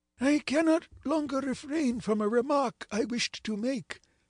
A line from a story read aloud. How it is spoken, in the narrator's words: exclaimed he at last